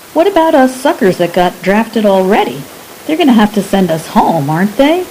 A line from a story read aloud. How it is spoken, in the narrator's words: Frank laughed